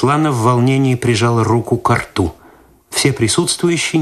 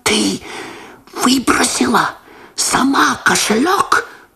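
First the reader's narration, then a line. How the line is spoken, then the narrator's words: Whispered. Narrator (Russian): Прошептал Лосар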